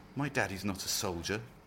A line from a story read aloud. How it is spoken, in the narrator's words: Doreen whispered, but she was unconvinced by her own doubts